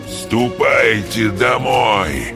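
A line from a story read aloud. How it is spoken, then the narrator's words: Hoarse voice close by. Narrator (Russian): кто-то хрипло произнес у них над самым ухом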